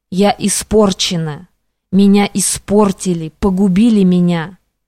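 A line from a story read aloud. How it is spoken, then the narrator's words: Distinct whisper. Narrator (Russian): прошептала явственно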